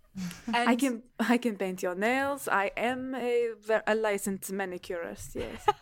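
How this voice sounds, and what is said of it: Bad put-on French accent. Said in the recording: “My terrible French accent.”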